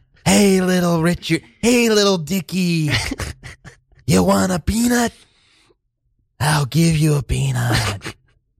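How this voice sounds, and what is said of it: Imitates another person's voice. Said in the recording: “full-on Jack Nicholson ... He's always Jack ... my second impersonation today”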